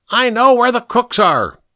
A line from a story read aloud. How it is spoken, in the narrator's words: Pink screamed